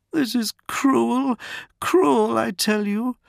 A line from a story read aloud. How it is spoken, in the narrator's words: sobbed Madarin